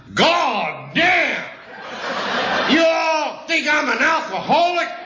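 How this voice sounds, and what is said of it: Shouted line in Texas drawl. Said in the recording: “in that Texas drawl. He yelled out”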